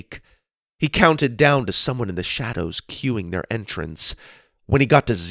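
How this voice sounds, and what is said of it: Usual voice. Nothing is said of it.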